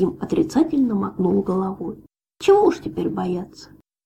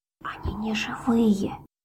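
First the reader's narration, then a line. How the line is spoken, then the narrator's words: Barely audible dwarf whisper. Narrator (Russian): еле слышно прошептал карлик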